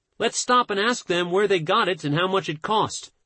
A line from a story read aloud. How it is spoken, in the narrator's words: they begged